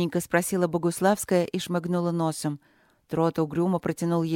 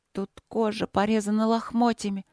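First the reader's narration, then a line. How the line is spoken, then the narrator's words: Trembling female voice. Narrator (Russian): дрожащим голосом проговорила она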